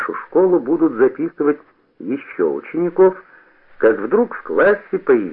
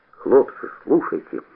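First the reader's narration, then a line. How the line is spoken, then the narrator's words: Pleading. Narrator (Russian): взмолился Бобырь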